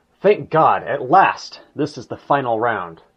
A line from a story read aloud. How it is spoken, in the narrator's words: exclaimed